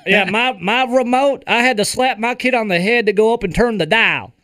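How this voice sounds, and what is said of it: Put-on Southern US accent. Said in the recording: “I don't know why I got that accent ... I picked up that southern accent. I guess I was going really southern Illinois there.”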